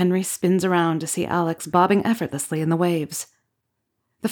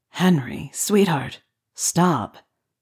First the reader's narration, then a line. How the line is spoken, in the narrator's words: a familiar voice murmurs